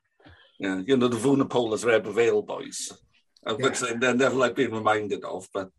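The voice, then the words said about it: Strong Welsh accent. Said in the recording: “You've got quite a strong Welsh accent. I was surprised the first time I spoke to how strong your Welsh accent is”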